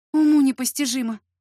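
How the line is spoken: Noisy exhale. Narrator (Russian): шумно выдохнула

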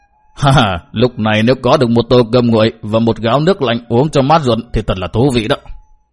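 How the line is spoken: Old man muttering. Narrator (Vietnamese): Ông già nọ lẩm bẩm nói

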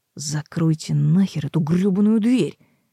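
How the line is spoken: Through gritted teeth. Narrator (Russian): процедила

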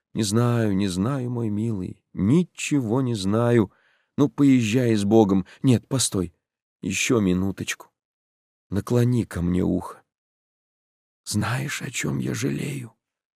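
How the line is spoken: Whisper. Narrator (Russian): зашептала она

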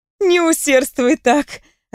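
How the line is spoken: Laughing. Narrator (Russian): рассмеялась я

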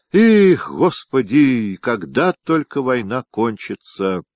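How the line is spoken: Loud drunken emotional sigh. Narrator (Russian): вздохнул громко с чувством хмельной стрелец

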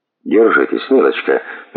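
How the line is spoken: Mumbling. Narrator (Russian): мямлил сэр Джулиус

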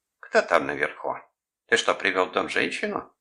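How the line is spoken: Accusing question. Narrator (Russian): спросила она обвиняющим тоном

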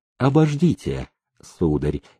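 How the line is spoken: Quiet warning. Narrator (Russian): тихо предупредил он

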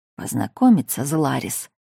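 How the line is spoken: Close hot whisper. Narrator (Russian): прошептал лорд Аларик, обжигая шею дыханием

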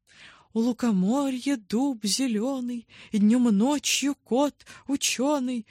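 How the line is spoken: Father, cheerful. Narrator (Russian): радостно начал папа

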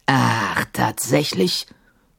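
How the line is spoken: Growled. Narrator (German): knurrte Sahim

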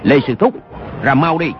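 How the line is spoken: Shout. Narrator (Vietnamese): Dư Triệu Hưng quát

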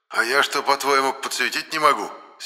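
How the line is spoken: Angry. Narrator (Russian): сердито сказал Моня

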